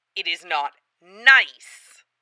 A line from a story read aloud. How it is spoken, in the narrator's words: Hood hisses